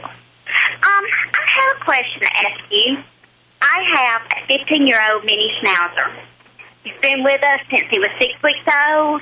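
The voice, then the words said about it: Southern American accent. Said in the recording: “you have a southern accent, a pretty southern accent.”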